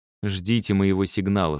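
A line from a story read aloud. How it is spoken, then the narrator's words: Plain. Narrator (Russian): сказала я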